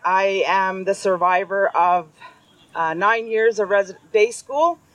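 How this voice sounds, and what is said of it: Loud, strong speaking voice. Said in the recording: “I don't think I need a microphone to hear my voice. I got a pretty loud voice.”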